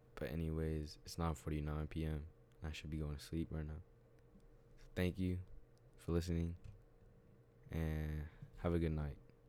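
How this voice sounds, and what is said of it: Sick, ill-sounding voice. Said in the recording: “I've been sick. That's why my voice sounds like this. ... I would always cough”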